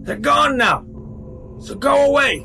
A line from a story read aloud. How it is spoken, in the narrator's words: he yelled